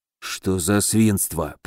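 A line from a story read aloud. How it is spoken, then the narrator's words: Whisper. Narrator (Russian): прошептал Муром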